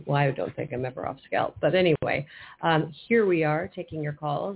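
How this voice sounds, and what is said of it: Unusually deep, strange-sounding voice. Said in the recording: “I'm a bass today ... My voice sounds weird. Does it sound strange to you?”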